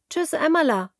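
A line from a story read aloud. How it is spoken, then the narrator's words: Calls out. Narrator (German): ruft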